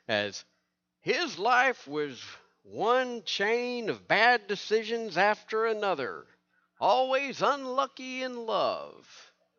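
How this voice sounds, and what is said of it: Keith Morrison impression, somewhat southern. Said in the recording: “try my Keith Morrison voice ... That's a little too southern.”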